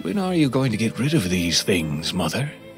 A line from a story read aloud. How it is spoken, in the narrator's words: he said, gently chiding her